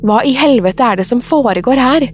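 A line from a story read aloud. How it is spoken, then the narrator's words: Screaming. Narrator (Norwegian): skrek hun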